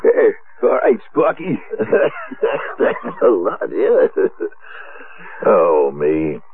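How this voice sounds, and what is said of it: Hoarse, raspy laryngitis voice. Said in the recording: “how do you like my laryngitis today? ... I thought you were doing your famous Walter Brennan impression.”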